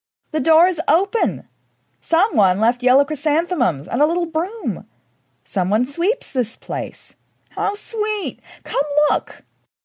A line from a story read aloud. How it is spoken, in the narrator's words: Belinda exclaimed